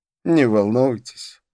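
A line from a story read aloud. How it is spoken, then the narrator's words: Laughing. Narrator (Russian): рассмеялся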